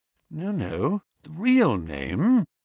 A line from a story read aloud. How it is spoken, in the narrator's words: said Holmes sweetly